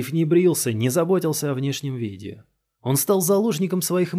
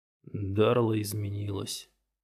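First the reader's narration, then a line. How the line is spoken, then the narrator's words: Said quietly. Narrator (Russian): тихо сказал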